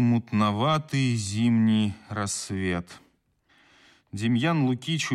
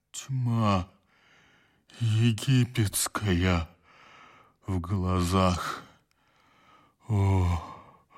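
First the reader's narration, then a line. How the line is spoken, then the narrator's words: Weak bass reply. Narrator (Russian): слабым басом отозвался мельник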